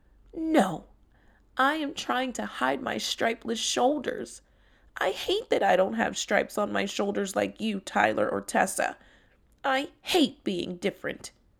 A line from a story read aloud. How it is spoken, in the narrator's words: Timmy said tearfully